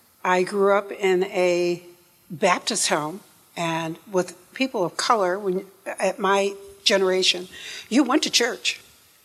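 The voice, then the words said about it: Non-Southern upstate New York accent. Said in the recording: “you'll tell by my voice I am not a Southerner ... I'm from upstate New York”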